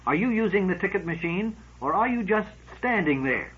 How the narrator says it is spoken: said irritably

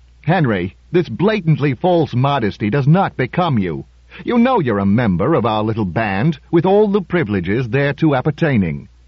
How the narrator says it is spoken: Reuben said loudly

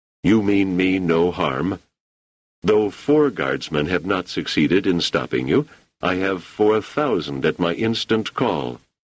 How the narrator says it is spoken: He said calmly

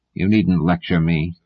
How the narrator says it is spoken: said Legan coldly

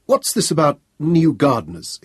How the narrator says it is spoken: exclaimed Selden

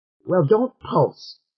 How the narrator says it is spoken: said Dua sharply

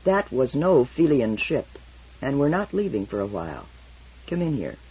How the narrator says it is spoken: Toran replied grimly

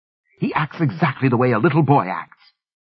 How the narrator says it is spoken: snapped, moving deeper into her mode of belligerent defensiveness with every moment

